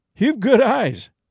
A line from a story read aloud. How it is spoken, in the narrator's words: said Whitney with a laugh